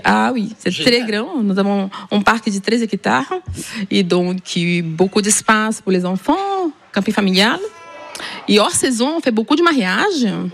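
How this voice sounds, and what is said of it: Southern French Ariège accent. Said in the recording (French): “Et il vient d'où ce petit accent? ... De l'Ariège.”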